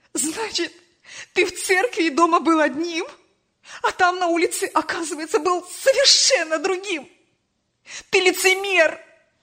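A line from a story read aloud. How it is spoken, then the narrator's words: Mother shouting through tears. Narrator (Russian): Сквозь слезы кричала мать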